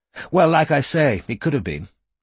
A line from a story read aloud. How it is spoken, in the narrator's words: she said impatiently, with a small shrug of her thin shoulders